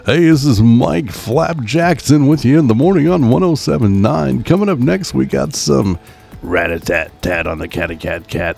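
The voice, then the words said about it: Fake cheesy radio DJ voice. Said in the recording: “do the radio voice ... 107.9 The Frog ... people that do podcast or audio stuff where they use a fake voice. That's all fake, and it's all rainbows and cotton candy”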